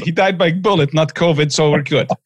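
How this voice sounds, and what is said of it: Weak put-on Russian accent. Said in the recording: “my very lame attempt at a Russian accent”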